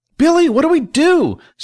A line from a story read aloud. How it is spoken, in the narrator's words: Celine asked desperately